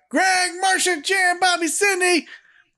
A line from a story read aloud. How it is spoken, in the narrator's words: Peter yells out